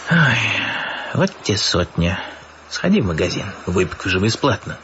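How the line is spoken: Sighing. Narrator (Russian): Львович вздохнул

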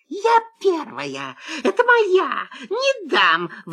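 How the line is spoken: Sudden shriek. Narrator (Russian): вдруг взвизгнула лиса

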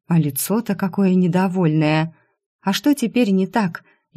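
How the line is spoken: Near whimper. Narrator (Russian): Едва не захныкала я

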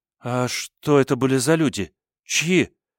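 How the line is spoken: Trembling question. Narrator (Russian): спросила Акеми дрожащим голосом

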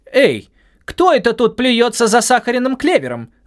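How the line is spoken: Yelling. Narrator (Russian): завопила Вапити

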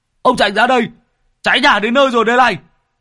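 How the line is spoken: Shouting. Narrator (Vietnamese): Tứ Lợn lại quát

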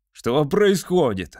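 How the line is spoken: Yelling. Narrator (Russian): вопил он

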